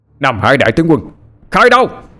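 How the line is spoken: Sudden loud yell. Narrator (Vietnamese): Đột nhiên anh hét lớn

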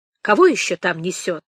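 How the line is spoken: Angry, sleepy voice. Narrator (Russian): Кристина сказала сердито, словно с просонья

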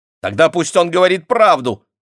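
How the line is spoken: Snapped. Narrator (Russian): огрызнулась она

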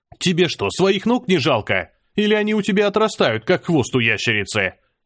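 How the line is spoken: Shouted. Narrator (Russian): выкрикнул я

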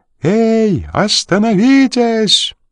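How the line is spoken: Shouting pursuer. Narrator (Russian): закричал один из преследователей

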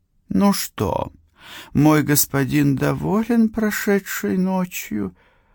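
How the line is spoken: Purring. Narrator (Russian): промурлыкала она

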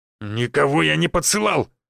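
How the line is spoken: Barked. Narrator (Russian): рявкнул

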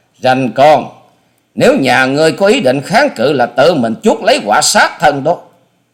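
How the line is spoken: Loud shout. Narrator (Vietnamese): Hà Xà Tiên Tử hét to

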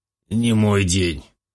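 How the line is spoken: Hoarse exhale, mercenary. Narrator (Russian): хрипло выдыхает наемник

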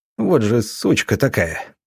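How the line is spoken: Muttering. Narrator (Russian): бормотал Юдичев

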